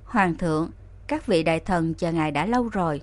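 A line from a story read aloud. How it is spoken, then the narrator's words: Soft cough, then speaking. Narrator (Vietnamese): Nam Cung Ninh Hình khẽ ho một tiếng nói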